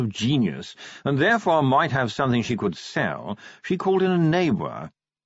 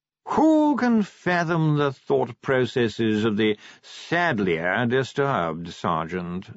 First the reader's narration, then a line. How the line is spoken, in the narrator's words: said Sir Reynold wearily